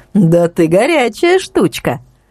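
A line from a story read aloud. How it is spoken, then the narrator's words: Laughing. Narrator (Russian): Настя рассмеялась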